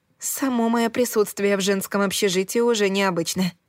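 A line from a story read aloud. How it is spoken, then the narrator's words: Wry snort. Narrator (Russian): хмыкнула я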